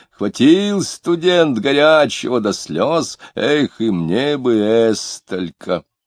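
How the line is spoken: Cheerful shout. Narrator (Russian): Какой-то мохнатый весело крикнул

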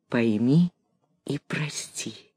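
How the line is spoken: Quiet. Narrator (Russian): и тихо прибавил

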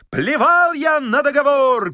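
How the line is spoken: Shouting. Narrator (Russian): кричал он

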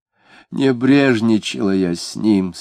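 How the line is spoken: Moaning. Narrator (Russian): стонала она

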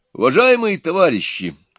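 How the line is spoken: Loud opening. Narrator (Russian): громко начал Иван

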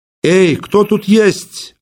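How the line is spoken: Loud calling out. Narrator (Russian): окликнул Щукин громко

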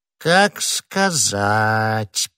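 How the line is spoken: Drawn-out drawl. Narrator (Russian): протянул Бонасье

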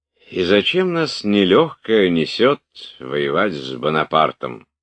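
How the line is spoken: Plain. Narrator (Russian): сказал Шиншин

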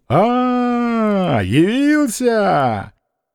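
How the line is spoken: Joyful shout. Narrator (Russian): при виде сына он радостно крикнул

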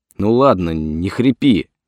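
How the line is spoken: Angry interruption. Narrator (Russian): сердито оборвал его кувалда

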